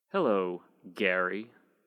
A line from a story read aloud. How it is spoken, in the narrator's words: she spat my old name like an accusation